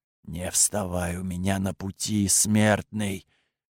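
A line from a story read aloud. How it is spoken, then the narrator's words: Sepulchral whisper echoing. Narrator (Russian): Замогильный шепот пронесся по пещере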